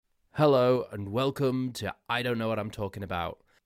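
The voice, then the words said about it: Hoarse, congested, sick-sounding voice. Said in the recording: “you can probably hear that in my voice... I've started to lose my voice. I'm a little bit sniffly. I've got a sore throat.”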